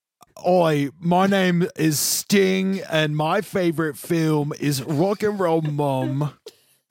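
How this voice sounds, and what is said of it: Put-on Cockney accent. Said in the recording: “Cockney accent”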